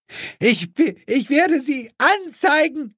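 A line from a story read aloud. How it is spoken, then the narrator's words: Screamed. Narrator (German): schrie diese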